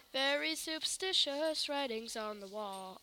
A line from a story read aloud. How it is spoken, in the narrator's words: I mumbled while stumbling over my words